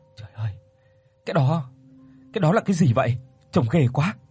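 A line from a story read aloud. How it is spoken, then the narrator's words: Trembling, frightened. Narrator (Vietnamese): Chị Tuyết run rẩy rồi nói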